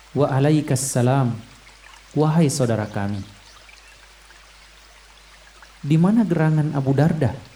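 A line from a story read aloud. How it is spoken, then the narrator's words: Plain. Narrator (Indonesian): tanya Abdullah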